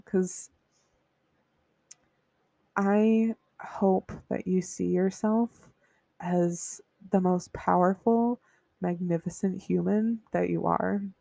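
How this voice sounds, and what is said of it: Emotional voice. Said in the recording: “But now I'm getting emotional”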